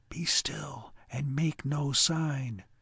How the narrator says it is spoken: Prudence whispered

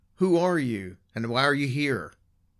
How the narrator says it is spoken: They called out

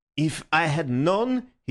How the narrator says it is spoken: he spluttered

